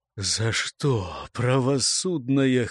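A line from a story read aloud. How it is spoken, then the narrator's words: Hoarse outburst. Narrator (Russian): хрипло вырвалось у источника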